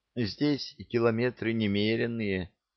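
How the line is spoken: Guilty sigh. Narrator (Russian): виновато вздохнула Жасмин

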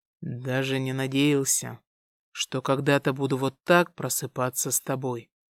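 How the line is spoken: Quiet. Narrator (Russian): тихо произнес Дамиан

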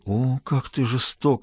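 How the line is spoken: Moaning. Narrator (Russian): простонал он

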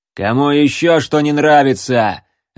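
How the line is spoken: Barked. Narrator (Russian): рявкнул арбалетчик

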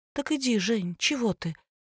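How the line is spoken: Quiet strained mumble. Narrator (Russian): тихо промычала Лина, с трудом разлепив губы

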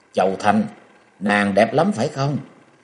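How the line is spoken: Cold, furious through teeth. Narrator (Vietnamese): Dịch Tú Vân giận đến xanh mặt, nàng nghiến răng lạnh lùng

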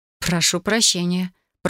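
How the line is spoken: Muttered. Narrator (Russian): пробормотала я

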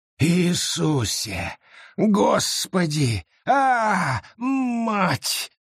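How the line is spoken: Growl through gritted teeth. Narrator (Russian): рычал Гаррет сквозь зубы

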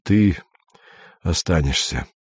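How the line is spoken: Tired. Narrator (Russian): сказал Андрей устало

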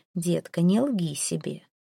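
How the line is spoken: Soft statement. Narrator (Russian): мягко заявляет Зейн

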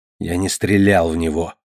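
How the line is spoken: Mumbling. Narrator (Russian): пробормотал

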